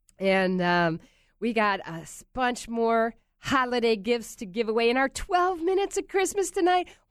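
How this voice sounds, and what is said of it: Congested, stuffy-nosed voice. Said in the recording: “we're both a little under the weather here. I'm shouting through my congested head.”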